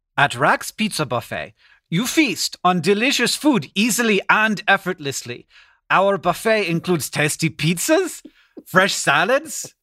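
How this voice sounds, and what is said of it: Reads text in a put-on accent. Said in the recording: “your accent ... I don't usually do the accents around here”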